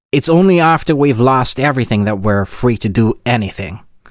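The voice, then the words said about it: Attempted gruff American accent. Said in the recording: “this is my me trying to do an American accent ... this is terrible ... it's got to be gruffer”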